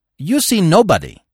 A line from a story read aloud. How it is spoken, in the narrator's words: snapped back uncompromisingly